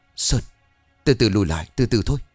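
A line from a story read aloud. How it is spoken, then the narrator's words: Frozen, stammering in fear. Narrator (Vietnamese): Đàn đứng hình, mồ hôi lăn dài trên má, miệng lắp bắp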